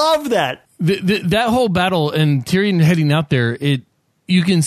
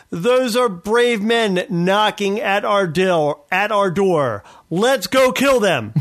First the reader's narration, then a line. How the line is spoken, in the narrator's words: Tyrion, where he screams out